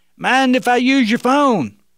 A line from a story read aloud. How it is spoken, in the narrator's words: the young man yelled out again